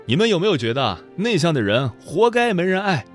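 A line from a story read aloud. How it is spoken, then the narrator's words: Loud question. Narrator (Chinese): 他清了清嗓子，大声问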